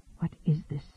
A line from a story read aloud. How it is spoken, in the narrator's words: he whispered